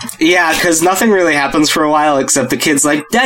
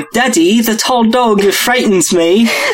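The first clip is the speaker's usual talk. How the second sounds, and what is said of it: Fake-sounding British accent. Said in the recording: “your accent work ... his accent sounds like a fake British accent”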